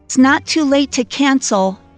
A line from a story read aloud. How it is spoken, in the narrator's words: Maggie yelled from the bedroom